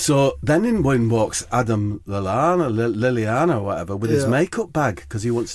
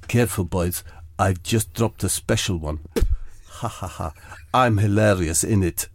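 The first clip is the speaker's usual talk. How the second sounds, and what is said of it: Jose Mourinho impression. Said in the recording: “my impression of Jose Mourinho ... It's very accurate ... It was like he was in the room.”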